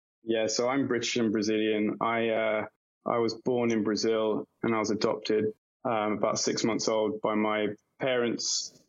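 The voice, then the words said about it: English accent. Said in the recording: “you've got English accent.”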